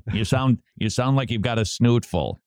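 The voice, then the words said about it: Stereotyped nagging mother voice. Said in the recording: “She didn't talk like that, but that's the standard mother impersonation.”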